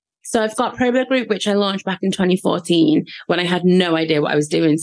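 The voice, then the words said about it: Scouse accent. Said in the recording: “you've got a Scouse accent”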